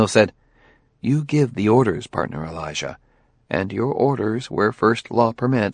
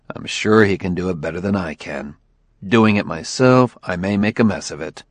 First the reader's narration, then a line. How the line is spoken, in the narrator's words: Bailey said grimly